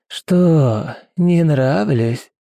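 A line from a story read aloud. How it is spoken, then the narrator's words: Deep booming creature voice. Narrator (Russian): Почти басом прогудело существо, в котором даже голоса не осталось от прежней графини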